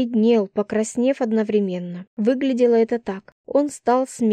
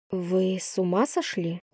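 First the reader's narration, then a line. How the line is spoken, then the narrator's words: Gentle question. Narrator (Russian): ласково спросила я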